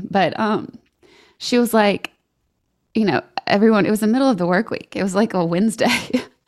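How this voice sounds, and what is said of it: Shaky, emotional voice. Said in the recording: “my voice is so shaky. This is very emotional for me.”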